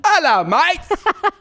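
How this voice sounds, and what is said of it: Fake British pirate-like accent. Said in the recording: “I'm going to do my whole set with a British accent ... You sound like a pirate from Pirates of the Caribbean ... Like a fake pirate, like a fake British pirate ... You're doing your British accent like Crocodile Dundee”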